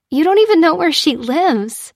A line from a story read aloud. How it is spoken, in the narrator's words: giggled Lucy